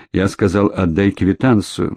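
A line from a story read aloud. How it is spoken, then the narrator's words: Grim repetition. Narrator (Russian): мрачно повторил Кремнев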